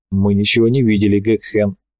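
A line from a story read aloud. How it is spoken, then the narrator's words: Calm agreement. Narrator (Russian): спокойно согласился Алхаст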